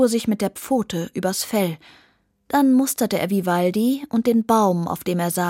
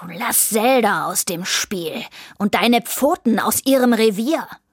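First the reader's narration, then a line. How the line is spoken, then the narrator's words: Hissing. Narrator (German): fauchte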